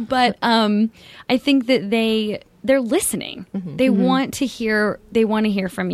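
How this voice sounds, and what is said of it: Usual voice. Nothing is said of it.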